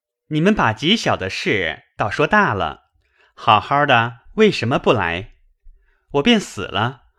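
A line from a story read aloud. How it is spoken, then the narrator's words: Laughing. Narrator (Chinese): 宝玉笑道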